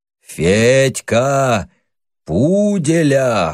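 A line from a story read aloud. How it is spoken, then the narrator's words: Hoarse wheezing. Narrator (Russian): хрипел Костыга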